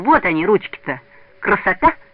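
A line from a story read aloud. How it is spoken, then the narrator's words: Laughing children. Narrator (Russian): Ребята засмеялись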